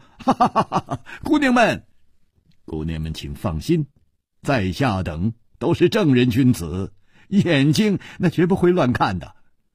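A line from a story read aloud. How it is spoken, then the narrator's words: Smiling. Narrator (Chinese): 楚留香微笑着说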